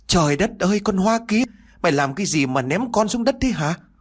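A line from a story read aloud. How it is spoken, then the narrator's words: Loud wailing shout. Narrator (Vietnamese): Bà ta liền gào lớn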